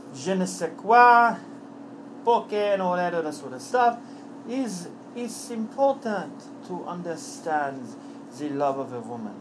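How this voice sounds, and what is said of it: Put-on French accent. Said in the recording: “the French accent I do very, very well”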